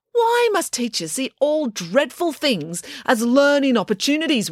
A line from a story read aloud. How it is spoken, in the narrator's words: wailed April